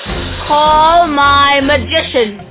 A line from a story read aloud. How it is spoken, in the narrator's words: Pharaoh roared